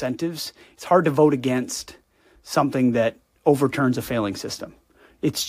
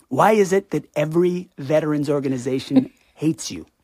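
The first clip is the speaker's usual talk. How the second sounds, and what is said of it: Trump impression. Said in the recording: “that's a great Trump impression”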